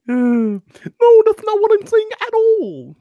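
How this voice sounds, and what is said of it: Imitates another person's voice. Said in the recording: “my Jordan Peterson impression ... That was awful.”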